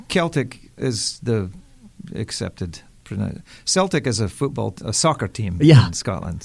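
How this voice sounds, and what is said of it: Thick Scottish Aberdeen accent. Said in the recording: “I'm from Aberdeen in Scotland... I'll thicken up my accent a wee bit so you can hear it”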